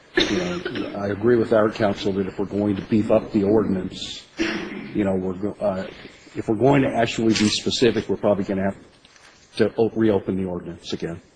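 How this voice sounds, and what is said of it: Congested voice from a cold. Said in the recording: “I have a little bit of a cold”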